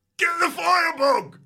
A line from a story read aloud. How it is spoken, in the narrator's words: Someone shouts